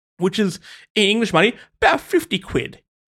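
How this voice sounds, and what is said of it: Put-on English accent. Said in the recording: “That was my English accent.”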